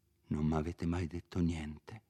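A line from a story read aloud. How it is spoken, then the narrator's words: Whispered. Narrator (Italian): Renzo sussurrò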